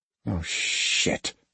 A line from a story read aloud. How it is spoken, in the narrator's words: Athena muttered